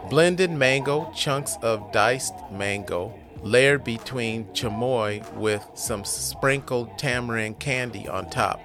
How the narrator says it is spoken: she explains

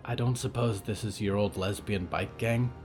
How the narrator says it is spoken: Riot whispered

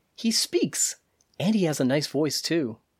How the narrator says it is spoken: said playfully

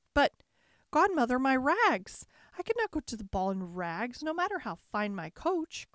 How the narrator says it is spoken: cried Cinderella

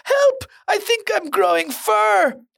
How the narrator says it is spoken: A boy screams

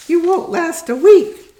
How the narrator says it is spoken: told him, jeering him off

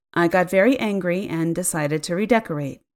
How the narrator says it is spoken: she said evenly

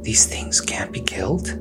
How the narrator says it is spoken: Alpa leaned over to whisper to her companion

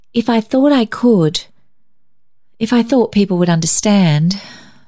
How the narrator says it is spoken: she sighed

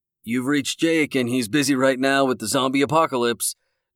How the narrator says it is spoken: Jake said in a jovial tone

